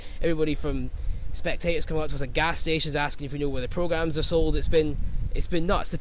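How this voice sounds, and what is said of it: Scottish accent. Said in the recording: “I'm a Scotsman, if you can't tell from the accent”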